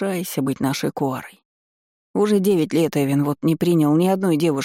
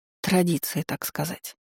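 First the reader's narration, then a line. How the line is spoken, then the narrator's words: Muttered. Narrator (Russian): пробормотала я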